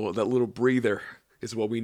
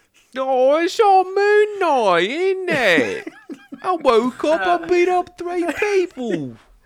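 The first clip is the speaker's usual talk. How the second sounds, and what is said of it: Put-on London British accent. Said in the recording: “bad British accents ... Do your British accent again ... You sound like you're from London.”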